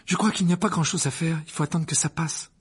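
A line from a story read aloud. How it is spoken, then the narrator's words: Worried. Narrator (French): dit Hermione d'un ton inquiet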